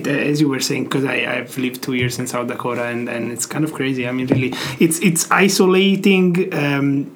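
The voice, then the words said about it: Noticeable non-native English accent. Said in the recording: “you have quite an accent ... my accent”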